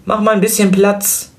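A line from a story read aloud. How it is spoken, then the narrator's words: Calling out. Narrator (German): rief sie der Tochter zu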